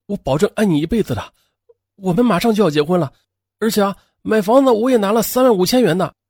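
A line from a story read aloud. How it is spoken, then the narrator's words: Pleading. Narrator (Chinese): 焦守辉哀求着说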